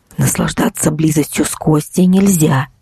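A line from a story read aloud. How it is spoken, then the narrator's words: Cracked hoarse whisper. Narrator (Russian): вновь зашептал в голове треснувший хриплый голос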